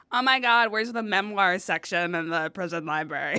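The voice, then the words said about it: Put-on white girl accent. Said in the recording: “the white girl accent”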